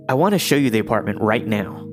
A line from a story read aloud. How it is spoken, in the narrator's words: he blurted out